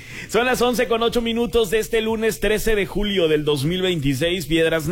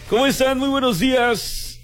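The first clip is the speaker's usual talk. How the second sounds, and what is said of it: Mock radio announcer voice. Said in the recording (Spanish): “Así sería imitar a un locutor. Pero no me sale”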